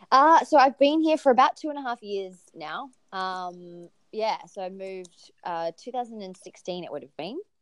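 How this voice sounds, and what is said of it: Australian accent. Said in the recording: “her really cool Australian accent”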